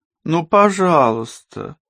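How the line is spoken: Pleading. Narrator (Russian): взмолилась Вера

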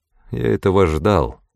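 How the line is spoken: Dry. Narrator (Russian): сухо сказал Уоррен Трент

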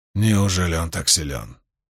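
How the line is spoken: Quiet question. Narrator (Russian): тихо спросил Равен

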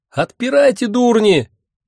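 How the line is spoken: Shrill screaming woman. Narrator (Russian): истошно вопила она

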